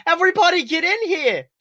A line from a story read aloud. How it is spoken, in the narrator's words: She shouted